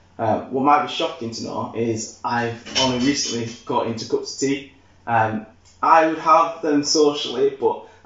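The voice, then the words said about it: Yorkshire English accent. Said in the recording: “I'm from Yorkshire. I know Leeds lads through and through. You can tell, well, hopefully you can tell by my accent.”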